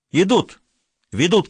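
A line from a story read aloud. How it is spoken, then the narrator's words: Shouting from bushes. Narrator (Russian): крикнул я из кустов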